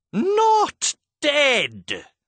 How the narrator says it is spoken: she screeched

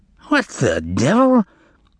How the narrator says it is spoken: exclaimed the editor

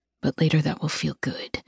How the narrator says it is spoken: he murmurs

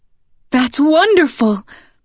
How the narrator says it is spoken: Ma cries, smiling for the first time in weeks

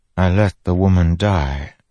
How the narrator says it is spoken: Fenn said softly

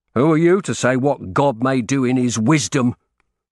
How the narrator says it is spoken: he snapped

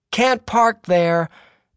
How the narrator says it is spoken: I heard someone shout out

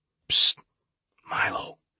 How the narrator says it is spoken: I whispered

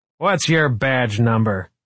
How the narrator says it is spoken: Smithback was saying loudly

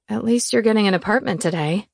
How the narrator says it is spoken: she said, her tone consoling

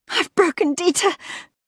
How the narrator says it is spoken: she gasped, panicked

